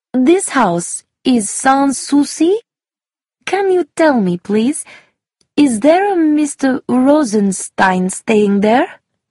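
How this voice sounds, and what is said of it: Slow speech with foreign accent. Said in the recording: “spoke slowly, with a foreign accent.”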